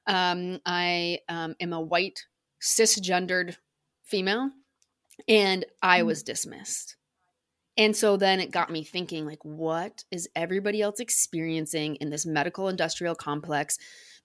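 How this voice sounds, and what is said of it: American accent. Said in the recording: “you can probably tell by my accent, I'm American.”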